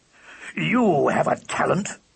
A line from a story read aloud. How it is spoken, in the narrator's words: he growled